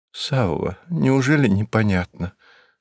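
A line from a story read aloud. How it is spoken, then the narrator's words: Weak voice. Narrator (Russian): слабым голосом сказала она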